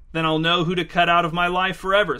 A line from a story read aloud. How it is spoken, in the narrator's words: said Angie